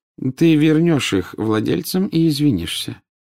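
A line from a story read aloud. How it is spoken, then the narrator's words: Calm. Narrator (Russian): спокойно сказал Дамблдор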